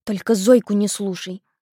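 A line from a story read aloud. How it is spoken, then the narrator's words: Hissing. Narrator (Russian): вновь зашипела она пареньку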